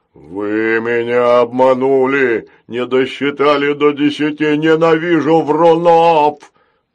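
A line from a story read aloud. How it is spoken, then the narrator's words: Angry roar, horned robot. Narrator (Russian): Рассерженно взревел рогатый робот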